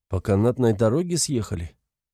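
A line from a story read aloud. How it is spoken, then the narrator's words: Detached clarifying tone. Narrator (Russian): Уточняю отстраненным тоном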